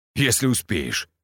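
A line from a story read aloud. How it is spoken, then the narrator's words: Smirking grunt. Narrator (Russian): хмыкнул я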